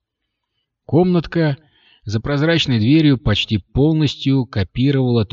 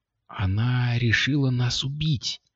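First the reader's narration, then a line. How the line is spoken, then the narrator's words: Whisper. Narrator (Russian): прошептала Кристина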